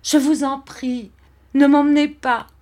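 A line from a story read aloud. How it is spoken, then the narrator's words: Bursting into sobs. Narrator (French): j'éclatai en sanglots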